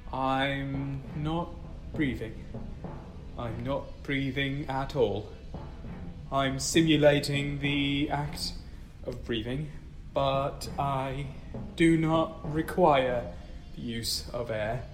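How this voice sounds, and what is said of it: Robotic, computer-like speech. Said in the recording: “Why are you talking like that? ... talking like my computer.”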